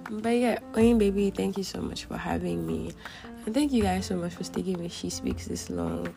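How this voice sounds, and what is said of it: Strained, fading voice. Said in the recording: “I'm so sorry for how I sound. My voice is kind of going.”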